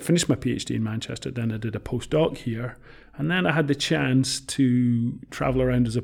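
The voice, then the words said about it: Scottish accent. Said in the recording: “I'm Scottish ... I can hear it in your accent. ... I know, it comes out.”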